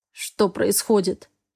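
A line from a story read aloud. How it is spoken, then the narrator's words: Hoarse, unpractised baritone. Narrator (Russian): раздался тот же хриплый баритон, который явно еще не привык к тому, чтобы говорить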